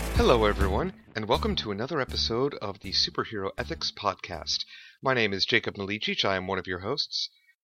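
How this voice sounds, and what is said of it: Tired, low, worn-out voice. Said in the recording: “my voice is a bit tired today ... this is my smooth jazz radio host voice ... now I have exhausted my voice”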